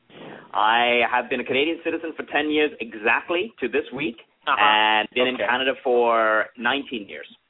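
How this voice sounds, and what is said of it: British-style accent. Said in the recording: “where'd you get that accent? ... hoity-toity British-style accents”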